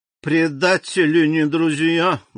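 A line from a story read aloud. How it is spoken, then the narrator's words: Muffled grumble. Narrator (Russian): глухо проворчала Карконта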